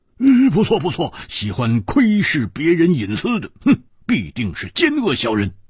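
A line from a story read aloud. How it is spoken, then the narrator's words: Loud. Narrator (Chinese): 蝴蝶花大声说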